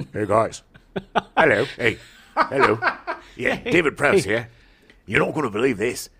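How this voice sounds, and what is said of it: Put-on Cockney accent. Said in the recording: “Did you make him Australian? ... Cockney. ... Is that Cockney? ... it's a perfect Cockney accent.”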